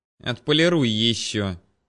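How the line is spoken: Sarcastic. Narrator (Russian): язвительно посоветовала Вера

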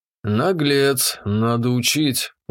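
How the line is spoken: Woman's sigh. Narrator (Russian): вздохнула дамочка

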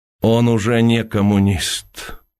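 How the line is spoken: Sad voice. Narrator (Russian): печальным голосом произнес Уваров

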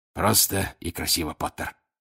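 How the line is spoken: Hoarse rasp. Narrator (Russian): прохрипел он

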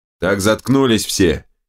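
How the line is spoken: Barking. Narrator (Russian): рявкнул Терехов

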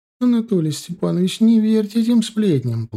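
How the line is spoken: Whiny, tearful. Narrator (Russian): плаксивым голосом проговорила она

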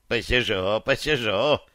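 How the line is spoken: Old woman's snort. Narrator (Russian): фыркнула бабка

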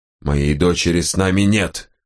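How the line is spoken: Growling. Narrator (Russian): прорычал князь

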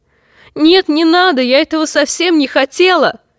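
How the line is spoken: Shrill scream of fear. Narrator (Russian): Мерцелла тоже пронзительно кричала от страха

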